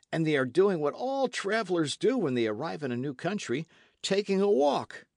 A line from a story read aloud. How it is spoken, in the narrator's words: exclaimed a young midshipman